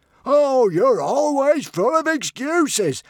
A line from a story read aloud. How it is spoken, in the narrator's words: howled Norbert furiously